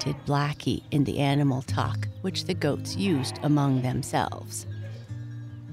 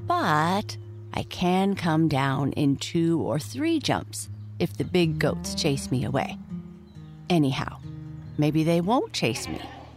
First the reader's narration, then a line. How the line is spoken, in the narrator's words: Lightfoot said slowly